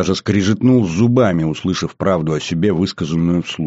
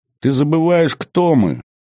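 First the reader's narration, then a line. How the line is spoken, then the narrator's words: Laughing. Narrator (Russian): смеясь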